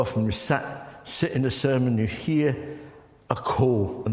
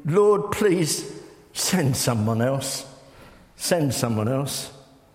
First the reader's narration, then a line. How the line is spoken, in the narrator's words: Moses again pleaded